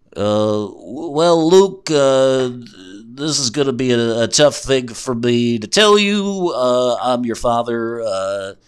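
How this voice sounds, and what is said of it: Imitates another person's voice. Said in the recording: “He does a really good Bill Cosby impression.”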